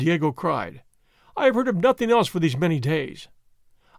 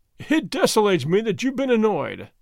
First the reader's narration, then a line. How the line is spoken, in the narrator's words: the governor said, laughing